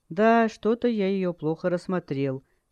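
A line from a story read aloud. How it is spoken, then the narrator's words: Open anger. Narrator (Russian): с нескрываемой злостью ответил кинжал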